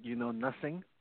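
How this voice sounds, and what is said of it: German accent, Sergeant Schultz impression. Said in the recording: “This is a line from Sergeant Schultz from Hogan's Heroes ... in my best German accent”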